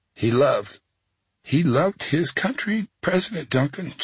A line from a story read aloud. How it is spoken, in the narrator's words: she says, her voice trembling